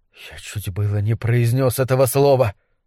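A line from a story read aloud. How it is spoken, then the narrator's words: Whispered. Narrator (Russian): прошептал Карл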